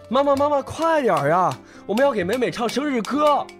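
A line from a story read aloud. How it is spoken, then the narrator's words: Boy calling out. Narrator (Chinese): 哥哥一边敲一边叫着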